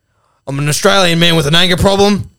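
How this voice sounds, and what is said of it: Angry Australian man character voice. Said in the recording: “I'm just going to do the voices ... good ochre Australian man ... A bit angry, yeah.”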